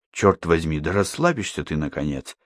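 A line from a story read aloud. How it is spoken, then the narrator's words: Sudden whisper in Danish. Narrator (Russian): внезапно шепнул он на чисто датском языке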